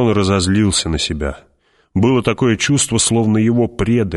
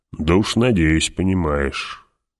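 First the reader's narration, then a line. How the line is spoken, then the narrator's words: Muttered under breath. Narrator (Russian): проворчал про себя барон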